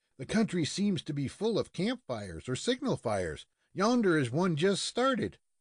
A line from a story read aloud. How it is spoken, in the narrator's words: Fred Munson exclaimed with some excitement